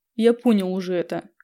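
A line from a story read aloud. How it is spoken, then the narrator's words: Smirking snort. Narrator (Russian): хмыкнул деспот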